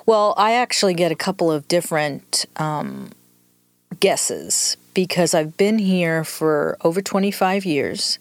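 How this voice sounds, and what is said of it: New York accent with Southern influence. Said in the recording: “you don't really sound like a Southerner ... the accent is a combination of New York and 25 years in the South”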